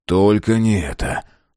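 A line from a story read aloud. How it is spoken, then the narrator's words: Groaning dismay. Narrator (Russian): застонал Мэлори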